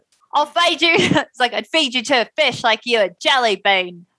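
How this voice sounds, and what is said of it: Bad put-on New Jersey accent. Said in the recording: “if I try to do a New Jersey accent ... That's my New Jersey accent. ... That's like weirdly like Britishy Australian.”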